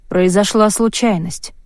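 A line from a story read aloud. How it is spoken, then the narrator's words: Gloomy reply. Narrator (Russian): мрачно ответил Рейнор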